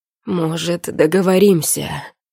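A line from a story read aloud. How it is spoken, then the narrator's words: Breathless, broken by moans. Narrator (Russian): Тяжело дышит, прерывая речь стонами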